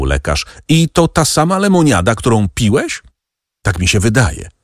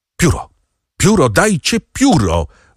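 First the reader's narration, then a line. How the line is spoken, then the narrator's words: Doctor calling out. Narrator (Polish): zawołał lekarz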